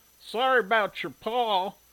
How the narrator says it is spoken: the lead goatfucker called out

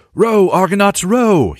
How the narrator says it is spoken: shouted

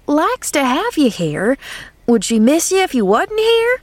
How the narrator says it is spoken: cried Nancy indignantly

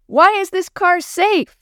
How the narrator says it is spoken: Maria asked, almost shouting to be heard above the noise of the rain pounding on the roof

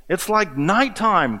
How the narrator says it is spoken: cried the sea urchin

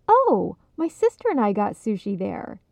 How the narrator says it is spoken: Lisa chimed in brightly

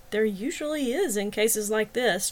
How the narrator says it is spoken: Travis chuckled

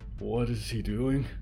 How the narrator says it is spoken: Byrne grunted, eyes barely open, as broken as the office furniture around her

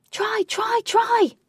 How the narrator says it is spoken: shouted Katie with absolute delight

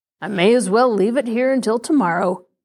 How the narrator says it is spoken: the man grunted

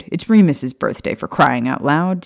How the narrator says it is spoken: Sirius snapped

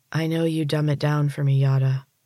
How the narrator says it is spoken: Morena sighed

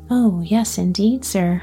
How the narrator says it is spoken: replied the countryman

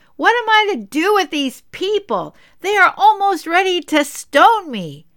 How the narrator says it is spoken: Moses again cried out to the Lord

